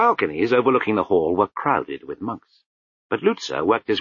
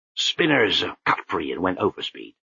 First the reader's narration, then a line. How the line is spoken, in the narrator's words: muttered Lutzer